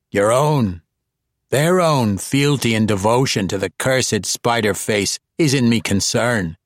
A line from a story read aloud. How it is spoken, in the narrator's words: he said rather harshly and purposely rudely